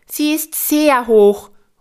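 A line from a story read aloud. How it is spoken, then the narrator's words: Calling out. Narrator (German): ruft Lisabella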